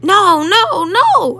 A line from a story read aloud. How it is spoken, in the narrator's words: I squeaked